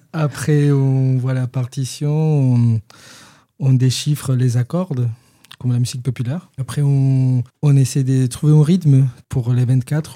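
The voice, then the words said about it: Peruvian accent speaking French. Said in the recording (French): “on reconnaît à ton accent que tu n'es pas de Rabastens ... Tu es péruvien.”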